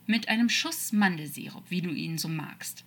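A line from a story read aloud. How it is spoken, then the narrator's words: Calm, relaxed despite danger. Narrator (German): sagte ruhig, als würden sie gerade gemütlich in einem Café sitzen und keine Riesenschlange bedrohlich die Giftzähne zeigen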